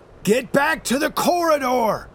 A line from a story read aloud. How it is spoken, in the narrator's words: I shout to them